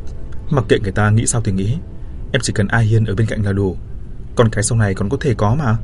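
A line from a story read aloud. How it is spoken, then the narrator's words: Innocent laughing girl. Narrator (Vietnamese): Cô bé bật cười ngây thơ nói tiếp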